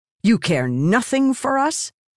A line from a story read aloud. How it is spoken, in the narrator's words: Silence snapped